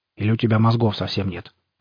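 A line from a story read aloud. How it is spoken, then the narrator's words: Grumbled. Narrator (Russian): пробурчал Сидорович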